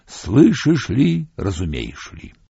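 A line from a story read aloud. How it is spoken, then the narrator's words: Low suffering singing. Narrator (Russian): Ведьма-цыганка запела низким страдающим голосом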